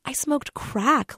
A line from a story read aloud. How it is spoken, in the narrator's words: Linda whispered, scandalized by herself